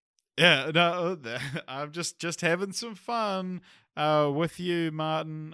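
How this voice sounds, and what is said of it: Usual voice. Nothing is said of it.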